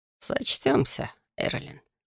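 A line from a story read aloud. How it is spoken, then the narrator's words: Purring male voice. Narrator (Russian): мурлыкнул он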